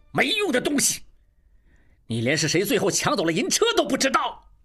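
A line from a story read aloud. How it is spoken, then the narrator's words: Furious. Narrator (Chinese): 金勇怒不可遏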